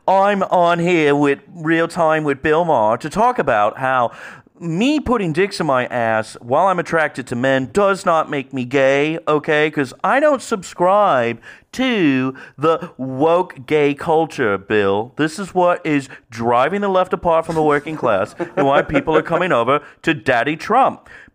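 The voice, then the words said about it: Fake British accent impression. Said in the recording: “British accent or fake British accent ... he sounds like Boy George”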